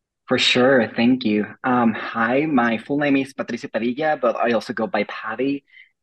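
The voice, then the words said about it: Mexican Spanish accent in English. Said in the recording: “as you can tell from my accent, I am Mexican”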